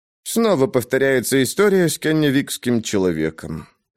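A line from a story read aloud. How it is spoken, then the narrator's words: Sigh. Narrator (Russian): вздохнула Мэгги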